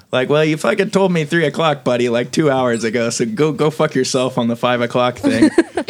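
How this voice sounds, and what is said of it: Put-on Canadian accent. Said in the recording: “That Canadian accent.”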